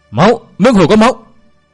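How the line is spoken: Sudden panicked scream. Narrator (Vietnamese): Đột nhiên có người la lên thất thanh

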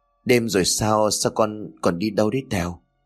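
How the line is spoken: Trembling voice. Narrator (Vietnamese): Nhàn liền run rẩy nói

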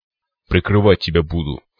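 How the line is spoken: Smirking grunt. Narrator (Russian): хмыкнул циклоп

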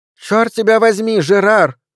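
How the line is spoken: Shout. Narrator (Russian): закричала она

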